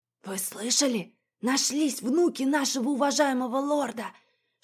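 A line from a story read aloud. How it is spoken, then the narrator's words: Whispering crowd. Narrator (Russian): шептались в одной стороне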